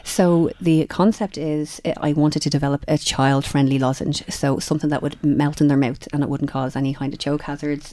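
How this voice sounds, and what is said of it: Hoarse voice. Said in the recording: “I'm hoarse from talking this week”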